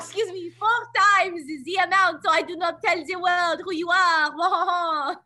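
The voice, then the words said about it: Bad stereotypical French accent. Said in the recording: “the very obviously bad, very stereotypical French accent”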